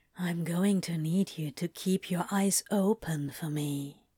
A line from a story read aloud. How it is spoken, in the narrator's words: Crowley whispered